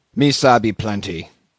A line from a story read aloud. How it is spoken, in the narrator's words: grunted Queequeg